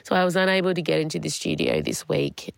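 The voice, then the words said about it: Sick, unwell-sounding voice. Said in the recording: “I'm trying to put on a brave voice, but I don't think it's working. I've had COVID since last Friday.”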